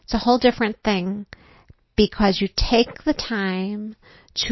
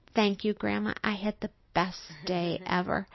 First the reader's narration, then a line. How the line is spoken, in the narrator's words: she said very softly